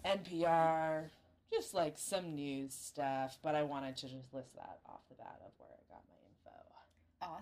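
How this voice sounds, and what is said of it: Strained, tired voice giving out. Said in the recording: “Oh my god, my throat. ... I'm just so fucking tired. My voice is giving out.”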